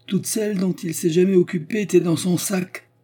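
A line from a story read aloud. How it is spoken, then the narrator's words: Exclaiming woman. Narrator (French): s'écria la baronne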